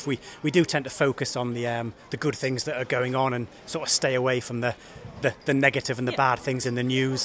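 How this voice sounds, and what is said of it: Slight Northeast English accent. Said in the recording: “I detect a slight Durham, Sunderland or Tyneside accent. ... Originally, I'm from Northumberland, near Hexham.”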